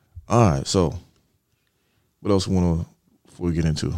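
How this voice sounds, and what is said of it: Usual voice. Nothing is said of it.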